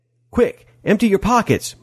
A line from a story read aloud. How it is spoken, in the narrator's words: Molly shouted